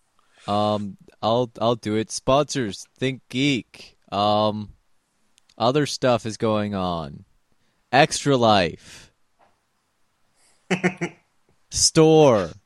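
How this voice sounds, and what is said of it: Imitates another person's voice. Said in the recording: “That was a perfect imitation of your intros.”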